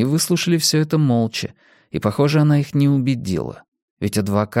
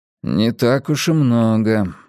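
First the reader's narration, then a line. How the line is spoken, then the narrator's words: Gloomy, resentful. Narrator (Russian): мрачно произнес Бадди, словно в незначительности суммы была виновата Саманта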